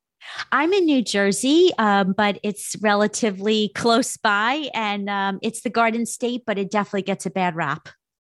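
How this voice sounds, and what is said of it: New York East Coast accent. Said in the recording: “a New Yorkian accent ... that East Coast accent.”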